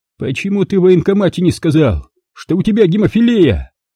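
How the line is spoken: Near yelling. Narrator (Russian): Почти орал врач

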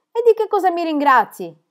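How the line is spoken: Doctor asking, laughing. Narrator (Italian): chiese il dottore ridendo

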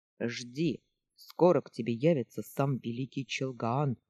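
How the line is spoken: Stern. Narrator (Russian): строго сказал он

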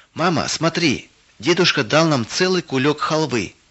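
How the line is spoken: Shouting from doorway. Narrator (Russian): крикнула Вера с порога

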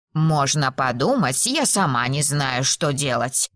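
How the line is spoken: Grumbled. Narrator (Russian): проворчала Мейбл

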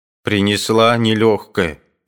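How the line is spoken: Angry. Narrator (Russian): говорила она сердито

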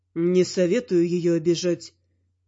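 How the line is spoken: Quiet. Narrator (Russian): тихо сообщил

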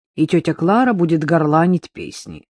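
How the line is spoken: Reproachful snort. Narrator (Russian): укоризненно хмыкнул Павлик

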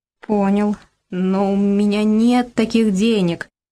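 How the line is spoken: Stuttering. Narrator (Russian): продолжал заикаться Игорь Васильевич

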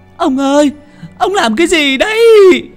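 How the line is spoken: Wailing scream, sobbing. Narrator (Vietnamese): Bà Lý gào lên một tiếng, khóc nức nở

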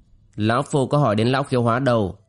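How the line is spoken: Cold. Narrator (Vietnamese): Bác Thiên Tôn giả lạnh lùng nói

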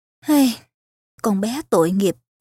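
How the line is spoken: Sighing, to herself. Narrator (Vietnamese): Bà thở dài, nói một mình

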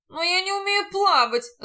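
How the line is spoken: Groaning. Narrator (Russian): застонал нотариус

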